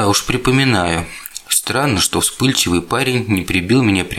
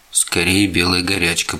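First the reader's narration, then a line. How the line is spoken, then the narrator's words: Muttered. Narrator (Russian): пробормотал я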